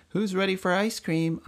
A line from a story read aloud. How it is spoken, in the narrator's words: Aunt May asked merrily